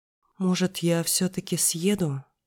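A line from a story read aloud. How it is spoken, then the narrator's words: Timid suggestion. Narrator (Russian): робко предложила я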